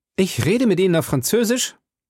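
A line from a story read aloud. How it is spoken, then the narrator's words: Calling out. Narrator (German): rief D'Artagnan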